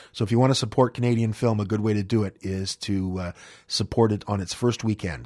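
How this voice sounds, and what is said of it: Tired, fading voice. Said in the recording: “as you can probably hear, my voice is starting to drift”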